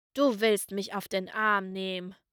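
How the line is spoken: Growled. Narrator (German): knurrte der Lokführer

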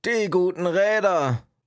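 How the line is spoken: Annoyed call. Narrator (German): rief der ältere Wichtel verärgert

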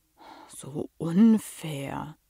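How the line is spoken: Sighing. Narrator (German): seufzte er

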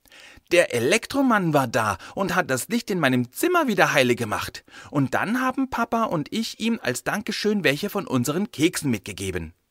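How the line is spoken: Excited child. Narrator (German): erzählte die 6-Jährige aufgeregt

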